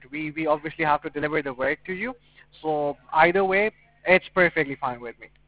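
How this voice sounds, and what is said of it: Slight Puerto Rican accent. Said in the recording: “you seem to have a slight accent. Were you foreign born? ... I'm from Puerto Rico.”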